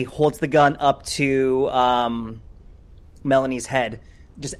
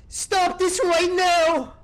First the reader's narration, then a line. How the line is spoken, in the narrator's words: Rook, at the top of his lungs, is just going to say